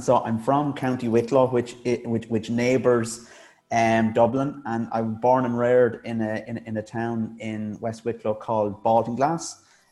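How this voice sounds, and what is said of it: Irish accent, not Dublin. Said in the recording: “obviously with the accent ... it wouldn't be considered certainly a Dublin accent in Ireland”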